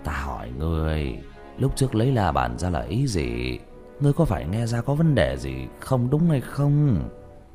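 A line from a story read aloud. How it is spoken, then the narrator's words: Old man sighing. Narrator (Vietnamese): Lưu lão nhân thở dài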